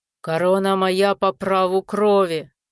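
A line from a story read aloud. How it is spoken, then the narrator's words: Growl. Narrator (Russian): рыкнул он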